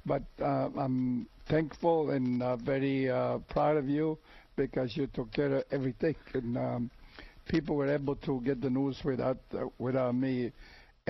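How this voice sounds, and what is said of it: Rough, sick-sounding voice. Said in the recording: “as you can probably tell by my voice, I had a lousy voice to start with. Now I got a worse voice because of my ailment with a cold, cough”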